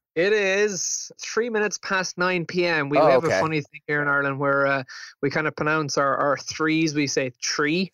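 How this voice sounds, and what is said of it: Irish accent. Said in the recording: “thickest Irish accent ... I love your guys' accent”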